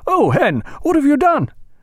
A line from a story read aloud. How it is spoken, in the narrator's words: Jack cried out